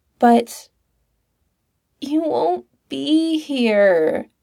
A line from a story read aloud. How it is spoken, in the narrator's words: whined